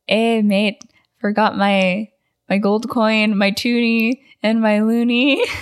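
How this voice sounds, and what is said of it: Put-on Wisconsin-style accent. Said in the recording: “that's what you think a Canadian accent sounds like ... I'm doing a Wisconsin accent.”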